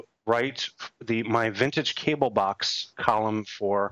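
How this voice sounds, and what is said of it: Usual voice. Nothing is said of it.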